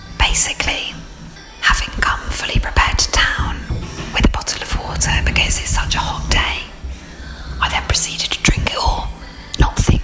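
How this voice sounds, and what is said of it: Whispering. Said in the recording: “hence why I'm whispering”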